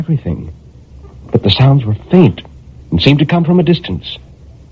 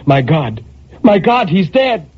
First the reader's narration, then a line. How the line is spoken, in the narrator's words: a terror took hold of her and she cried